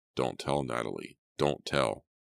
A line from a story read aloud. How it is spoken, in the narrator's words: murmured in that low, threatening voice